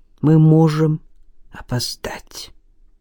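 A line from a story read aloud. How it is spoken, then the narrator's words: Barely audible whisper. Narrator (Russian): прошептал он чуть слышно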